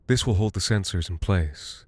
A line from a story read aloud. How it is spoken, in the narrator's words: he murmured